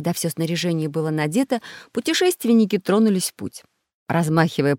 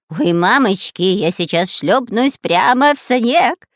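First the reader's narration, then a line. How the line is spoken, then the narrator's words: Shouting while skiing downhill. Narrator (Russian): кричал шпион Дырка, спускаясь на своих лыжах с небольшой горки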